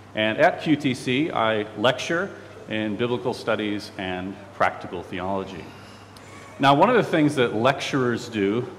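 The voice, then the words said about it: Chicago American accent. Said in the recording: “from Chicago, that's the accent you're hearing”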